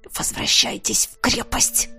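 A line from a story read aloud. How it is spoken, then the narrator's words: Strained hiss, barely restrained. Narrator (Russian): Прошипел я, поняв, что еще немного, и мне действительно станет все равно, кем питаться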